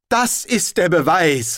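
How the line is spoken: Triumphant shout. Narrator (German): rief ein Stern im Land triumphierend

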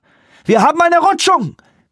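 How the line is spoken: Pilot shouting. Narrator (German): schrie der Pilot

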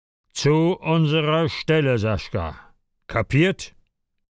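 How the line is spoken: Stern repetition. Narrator (German): wiederholte streng

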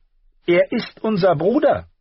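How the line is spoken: Far too loud. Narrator (German): sagte Arya viel zu laut

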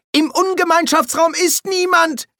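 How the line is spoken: Shouted by quaestor. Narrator (German): schrie der Quästor

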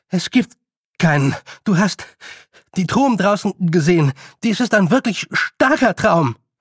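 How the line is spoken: Panting. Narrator (German): keuchte Roland

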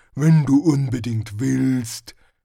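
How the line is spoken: Growling. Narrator (German): knurrte Hrun

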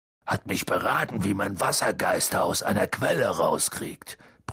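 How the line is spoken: Grumbled. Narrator (German): brummte Hagrid

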